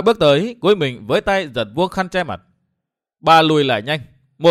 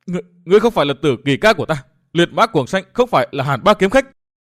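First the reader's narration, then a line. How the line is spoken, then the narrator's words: Loud shout. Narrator (Vietnamese): Bà hét lớn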